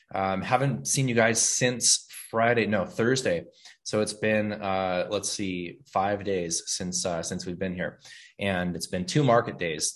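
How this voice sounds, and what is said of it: Slightly raspy voice from cold. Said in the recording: “my voice is a little bit raspy. ... I've had a mild cold for the past couple of days”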